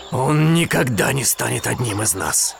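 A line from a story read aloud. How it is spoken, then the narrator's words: Growl. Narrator (Russian): прорычал он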